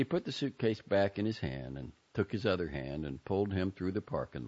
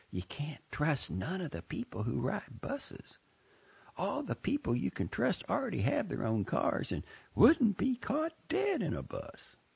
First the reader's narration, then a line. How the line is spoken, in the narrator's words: she said in a whisper